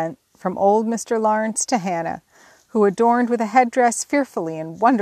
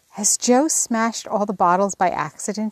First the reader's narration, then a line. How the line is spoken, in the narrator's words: he whispered